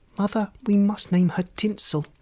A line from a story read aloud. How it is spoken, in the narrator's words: said Sparkle